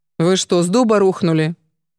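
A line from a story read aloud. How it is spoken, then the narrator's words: Rude, startled. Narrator (Russian): От неожиданности Ада заговорила со старухой грубо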